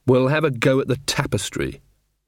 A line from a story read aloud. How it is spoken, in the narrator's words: said Magrat firmly